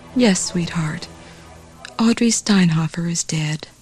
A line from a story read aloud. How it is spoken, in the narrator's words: Pamela's mother affirmed softly